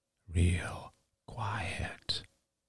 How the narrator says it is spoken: he murmured

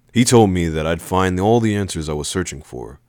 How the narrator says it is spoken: I said

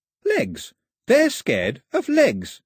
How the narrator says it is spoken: said Pilou triumphantly

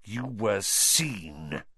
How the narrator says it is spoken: he hissed

